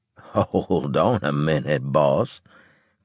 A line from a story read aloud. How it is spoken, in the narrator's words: Claver said, chuckling